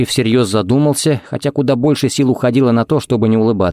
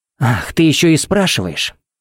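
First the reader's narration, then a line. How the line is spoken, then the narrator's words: Hissing. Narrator (Russian): Пепси зашипела, как газировка из взболтанной банки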